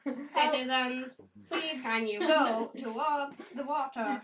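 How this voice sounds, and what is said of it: Robotic speech-synthesizer voice. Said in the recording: “Do your Stephen Hawking voice ... same voice and everything ... That's a combine boy.”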